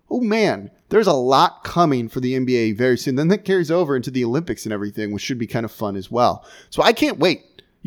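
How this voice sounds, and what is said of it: Excited, energetic voice. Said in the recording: “hear the excitement in my voice today because I'm actually kind of fired up about this”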